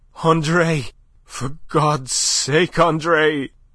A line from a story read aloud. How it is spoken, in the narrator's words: she panted hoarsely over her shoulder